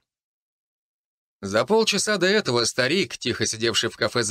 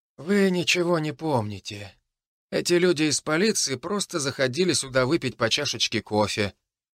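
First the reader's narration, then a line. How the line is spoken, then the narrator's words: Quiet. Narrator (Russian): тихо сказал он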